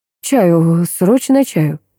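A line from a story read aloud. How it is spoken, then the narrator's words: Laughing to tears. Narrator (Russian): Грин, смеясь до слез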